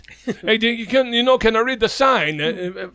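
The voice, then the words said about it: Put-on Italian accent, yelling. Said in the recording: “He comes out yelling at me in like Italian ... in an Italian accent”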